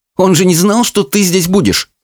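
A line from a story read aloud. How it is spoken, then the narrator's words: Snorting. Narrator (Russian): фыркнула Чармейн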